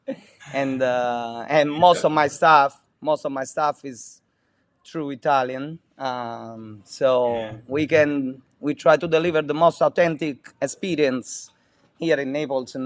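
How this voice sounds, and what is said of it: Italian accent. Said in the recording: “Being an Italian restaurant ... As you can tell from my accent, I am fresh off the boat.”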